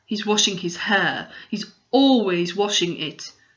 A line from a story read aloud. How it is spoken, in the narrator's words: said Finn gloomily